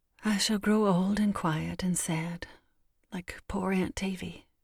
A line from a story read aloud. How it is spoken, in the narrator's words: murmured to herself